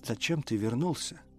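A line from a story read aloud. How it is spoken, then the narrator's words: Tearful whisper. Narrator (Russian): прошептала она сквозь слезы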